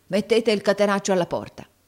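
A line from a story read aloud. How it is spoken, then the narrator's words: Shouted. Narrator (Italian): urlò Squeers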